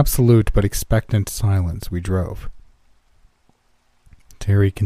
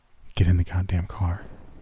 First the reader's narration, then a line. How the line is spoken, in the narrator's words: I said quietly